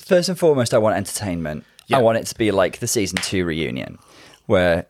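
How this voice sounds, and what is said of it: Hoarse, smoky voice. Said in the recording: “if I sound really hoarse ... I was shouting at Paolo earlier ... sorry if I sound a little bit smoky like Phoebe and Friends when she's a bit bluesy”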